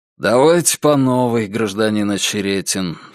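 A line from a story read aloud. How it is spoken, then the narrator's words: Tired, bored voice. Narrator (Russian): сказал Антон усталым и скучным голосом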